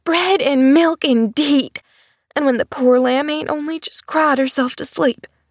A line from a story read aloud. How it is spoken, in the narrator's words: she was muttering fiercely